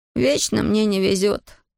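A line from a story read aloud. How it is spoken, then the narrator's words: Young man's groan. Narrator (Russian): простонал юноша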